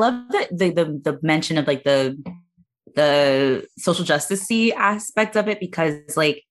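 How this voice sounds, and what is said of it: Usual voice. Nothing is said of it.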